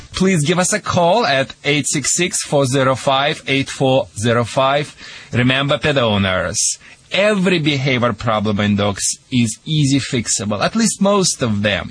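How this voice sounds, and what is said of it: Russian accent. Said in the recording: “Sorry for my Russian accent or Michigan accent, whatever it is.”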